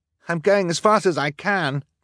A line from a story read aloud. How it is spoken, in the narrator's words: Klaus cried